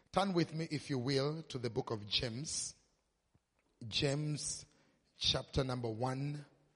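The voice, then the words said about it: Kenyan English accent. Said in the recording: “finding my accent to be a little bit difficult”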